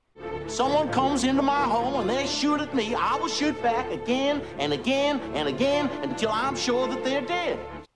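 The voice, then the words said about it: Convincing Savannah Southern accent. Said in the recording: “I perfected that accent to the extent where nobody recognized me as coming from anywhere other than Savannah.”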